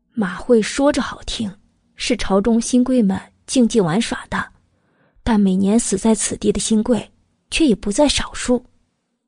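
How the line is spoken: Lowered voice. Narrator (Chinese): 阮明月压低声音继续道

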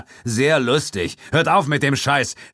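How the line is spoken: Shout, feigned courage. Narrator (German): rief, und seine Stimme klang mutiger, als er sich fühlte

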